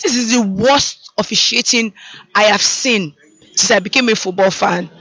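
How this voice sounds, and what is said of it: Strained, hoarse voice. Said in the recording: “I've lost my voice.”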